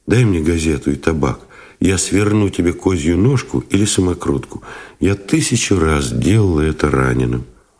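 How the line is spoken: Soft request. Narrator (Russian): попросила мягко

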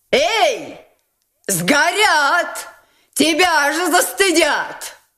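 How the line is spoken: Shouting. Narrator (Russian): кричала ему Настасья Филипповна

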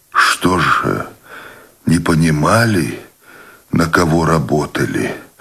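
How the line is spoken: Barely audible moan. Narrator (Russian): Едва слышно простонал Буров

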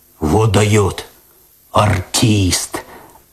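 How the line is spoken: Admiring bass voice, cat. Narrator (Russian): Опять восхищенно пробасил кот

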